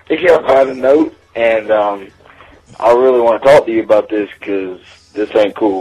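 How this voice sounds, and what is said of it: Southern US Georgia accent. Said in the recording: “He is from Georgia, so I can believe the accent. ... I'll take the hick.”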